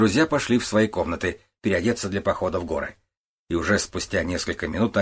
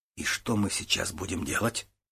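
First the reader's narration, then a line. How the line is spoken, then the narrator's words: Quiet question. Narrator (Russian): тихо спросил Кричко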